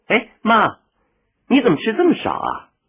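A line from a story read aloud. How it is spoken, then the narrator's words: Exclaiming. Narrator (Chinese): 李娜叫起来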